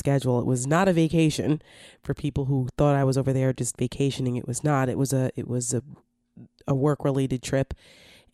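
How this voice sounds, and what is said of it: Raspy, congested voice. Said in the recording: “I got a little under the weather coming back. So that's what you hear in my voice. ... a little bit of the rasp and congestion in my voice”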